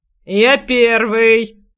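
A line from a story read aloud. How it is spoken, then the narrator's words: Rough bark. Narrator (Russian): грубо рявкнул другой, с бритой головой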